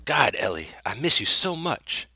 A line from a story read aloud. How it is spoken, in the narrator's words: he whispered